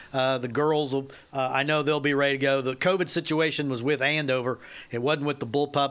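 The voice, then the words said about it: Nasal, flinty voice with southern twang. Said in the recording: “I got a nasally, flinty type voice. Everyone says I have a southern twang. I'm not from the South.”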